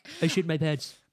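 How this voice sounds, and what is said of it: Stewie Griffin cartoon character voice. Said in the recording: “Get Stewie on him. ... I wish I didn't like hearing Stewie Griffin.”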